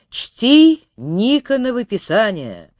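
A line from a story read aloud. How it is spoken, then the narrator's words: Loud. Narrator (Russian): громко сказал Алексей Михайлович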